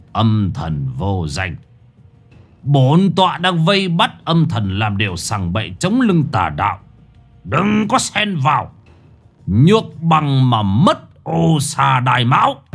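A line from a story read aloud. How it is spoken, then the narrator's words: Harsh, stern voice. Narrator (Vietnamese): Lão Thọ gằn giọng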